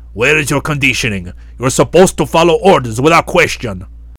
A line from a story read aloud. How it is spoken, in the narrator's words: the fat old fart shouted